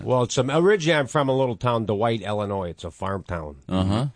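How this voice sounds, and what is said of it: Chicago accent. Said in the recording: “You just got a great Chicago accent.”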